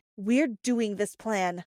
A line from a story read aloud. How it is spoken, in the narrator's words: said Sophia firmly